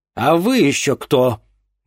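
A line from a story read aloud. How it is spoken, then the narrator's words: Menacing question. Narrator (Russian): грозно спросил у нее Овен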